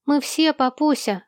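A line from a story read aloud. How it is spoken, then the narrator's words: Joyful reply. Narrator (Russian): радостно ответил Сол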